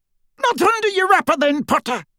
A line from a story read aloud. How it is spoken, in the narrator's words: yelled the Death Eater